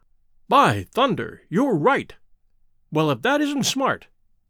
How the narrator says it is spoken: cried Sir Henry

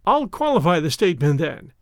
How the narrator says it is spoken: she answered, with a laugh

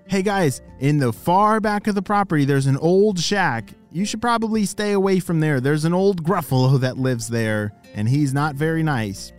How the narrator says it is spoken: Their grandparents shouted

